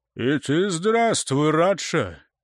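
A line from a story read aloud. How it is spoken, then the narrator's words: Friendly booming voice. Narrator (Russian): прогудел приветливо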